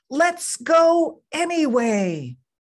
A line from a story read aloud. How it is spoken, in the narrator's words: Mom shouted through the rain